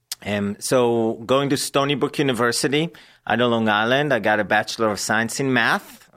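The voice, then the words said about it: Israeli accent in English. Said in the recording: “she recognized my accent in English and she asked me if I was Russian ... I'm not Russian, I'm Israeli”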